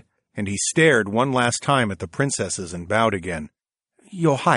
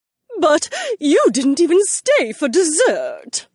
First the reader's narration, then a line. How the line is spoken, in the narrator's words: the old woman whined